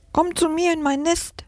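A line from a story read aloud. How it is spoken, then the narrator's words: Sparrow's chirp. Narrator (German): piepst der Spatz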